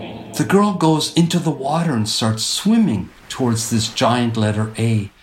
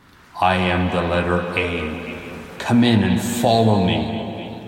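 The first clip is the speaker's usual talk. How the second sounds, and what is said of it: Deep booming thundering voice. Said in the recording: “in this thundering voice”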